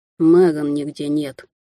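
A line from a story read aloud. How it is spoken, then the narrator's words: Gloomy reply, young man. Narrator (Russian): мрачно отозвался молодой человек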